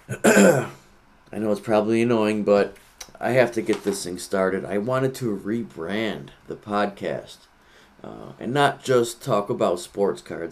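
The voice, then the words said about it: Rough, sore-throat voice. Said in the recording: “I have a terrible sore throat, so that's probably why my voice sounds like this.”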